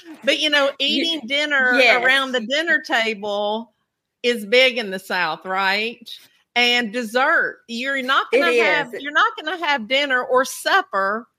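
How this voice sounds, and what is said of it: Southern US accent. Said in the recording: “I'm from the South ... listen to my accent ... You can definitely tell that I'm from the South”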